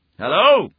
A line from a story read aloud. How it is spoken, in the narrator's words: I yelled